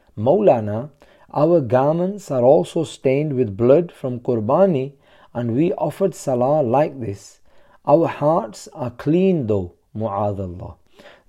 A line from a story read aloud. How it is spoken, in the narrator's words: a reckless person exclaimed